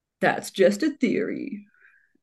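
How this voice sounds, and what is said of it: Imitates another person's voice. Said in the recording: “that was a horrible imitation of him”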